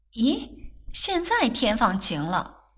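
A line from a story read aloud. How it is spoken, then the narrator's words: Surprised, laughing. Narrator (Chinese): 翠芝不禁咦了一声，笑道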